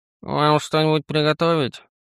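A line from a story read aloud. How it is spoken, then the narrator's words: Sleepy question, werewolf. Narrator (Russian): Сонно поинтересовался оборотень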